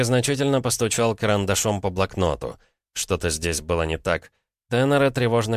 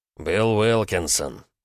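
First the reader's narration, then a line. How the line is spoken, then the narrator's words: Through clenched teeth. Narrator (Russian): процедил Джозеф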